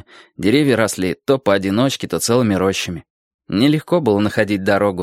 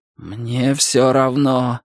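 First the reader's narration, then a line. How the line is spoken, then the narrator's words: Groaning. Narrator (Russian): простонал Дик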